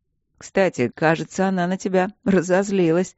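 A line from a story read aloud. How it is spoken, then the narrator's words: Chuckling. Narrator (Russian): хохотнул воин-дракон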